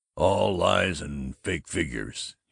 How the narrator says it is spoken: said, but in a doubtful croak

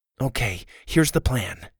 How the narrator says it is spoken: Susie said, now whispering nervously

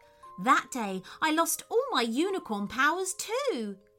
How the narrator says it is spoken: cried Snowdrop

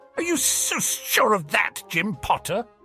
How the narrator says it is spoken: Ron hissed

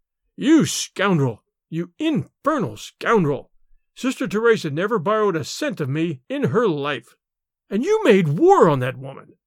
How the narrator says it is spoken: His rage choked him

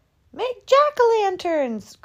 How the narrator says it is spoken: cried the children

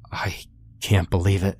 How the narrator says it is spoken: he stammered

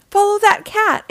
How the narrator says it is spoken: exclaimed Mr

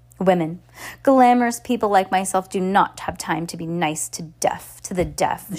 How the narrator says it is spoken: she snarled

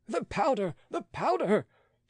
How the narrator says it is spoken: shrieked 20 terrified voices

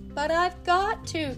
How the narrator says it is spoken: cried Tommy

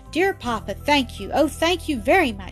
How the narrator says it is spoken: she cried joyfully

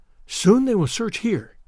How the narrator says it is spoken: whispered the girl

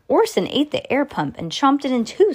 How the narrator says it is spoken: Sam cried

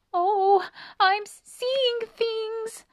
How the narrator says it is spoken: squeaked Annie suddenly

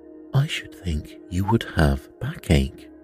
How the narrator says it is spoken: ventured Bamboo timidly

